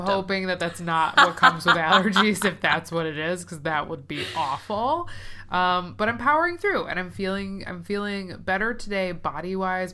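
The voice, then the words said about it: Stuffy, congested nasal voice. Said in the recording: “if I sound a little stuffy”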